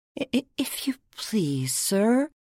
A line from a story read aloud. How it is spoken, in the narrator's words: Alice began, in a low, timid voice